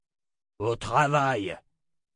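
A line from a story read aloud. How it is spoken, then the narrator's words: Roared. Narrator (French): rugit Jagang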